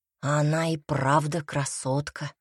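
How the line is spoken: Whisper. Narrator (Russian): прошептал Тибор

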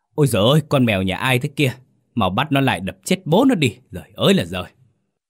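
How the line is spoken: Angry shouting man. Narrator (Vietnamese): Ông Mừng quát lên

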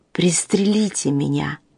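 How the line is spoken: Mumbling through blood. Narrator (Russian): послышалось бормотание сквозь заливавшую лицо кровь

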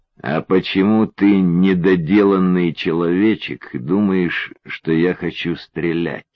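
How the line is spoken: Very calm. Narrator (Russian): Очень спокойно сказал Юрьев

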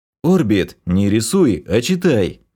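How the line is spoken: Alarmed growl. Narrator (Russian): Сполошившись, рыкнул я

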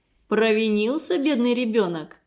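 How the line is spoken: Mocking young man. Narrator (Russian): насмешливо спросил молодой человек

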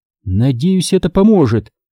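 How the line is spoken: Aloud, fairly calm. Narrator (Russian): сказала вслух, довольно спокойно

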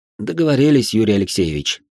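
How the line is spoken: Sighing. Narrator (Russian): вздохнул я

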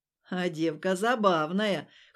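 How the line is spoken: Grunting. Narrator (Russian): хмыкнул болотник

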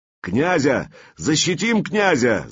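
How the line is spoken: Shout. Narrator (Russian): закричал варяжка

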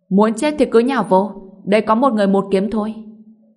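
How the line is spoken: Loud shout. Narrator (Vietnamese): Ngô Bình hét lớn

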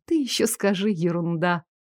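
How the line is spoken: Sleepy smirk. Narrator (Russian): ухмыльнулась сонно

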